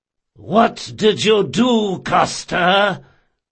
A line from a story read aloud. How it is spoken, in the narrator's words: roared Requin